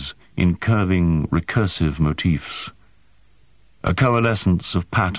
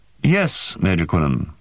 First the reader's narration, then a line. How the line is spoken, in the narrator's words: she said, in a precise, controlled voice